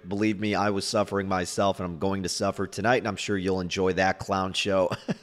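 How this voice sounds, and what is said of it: Hoarse, strained, failing voice. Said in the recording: “My voice is about to just absolutely disappear... Me trying to prevent my voice from cracking.”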